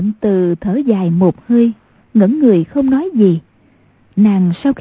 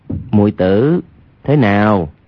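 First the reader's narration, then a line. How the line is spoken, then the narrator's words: Lowered voice. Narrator (Vietnamese): Hoàng Nhan Khang hạ giọng nói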